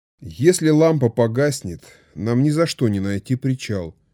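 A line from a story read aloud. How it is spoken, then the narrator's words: Gloomy, dejected. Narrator (Russian): уныло произнес Эндрю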